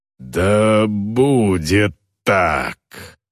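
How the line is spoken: Growled. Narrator (Russian): прорычала Успа

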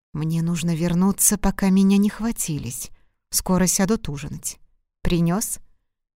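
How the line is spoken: Gentleman's whisper. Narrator (Russian): господин прошептал

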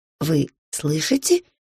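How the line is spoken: Quiet question. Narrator (Russian): спросила я его тихонько

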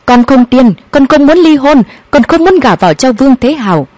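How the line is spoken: Loud shout. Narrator (Vietnamese): Hạ Mạt Hàn hét lớn

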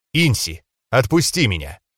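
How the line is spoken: Calm request. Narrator (Russian): спокойным тоном попросил

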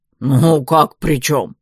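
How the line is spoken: Amused snort. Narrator (Russian): хмыкнул Вал

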